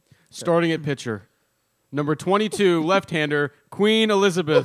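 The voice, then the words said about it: Sports announcer voice. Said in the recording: “Let me get my announcer voice on.”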